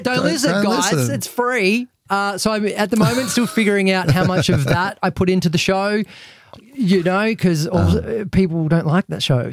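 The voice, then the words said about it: Australian Melbourne accent. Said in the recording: “my Melbourne accent”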